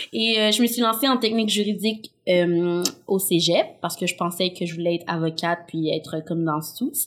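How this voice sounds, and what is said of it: Québécois joual accent. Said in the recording (French): “mon accent joual. Je parle comme ça”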